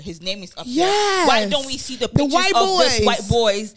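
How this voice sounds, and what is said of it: Speaks with a noticeable accent. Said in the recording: “You see my accent.”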